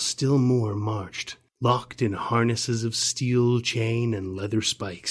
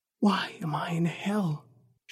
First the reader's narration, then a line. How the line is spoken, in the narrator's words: whispered